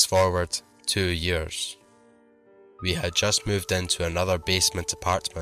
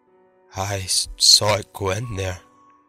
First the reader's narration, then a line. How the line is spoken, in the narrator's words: His voice quivering, he whispered